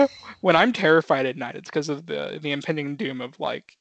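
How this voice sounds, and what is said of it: Usual voice. Nothing is said of it.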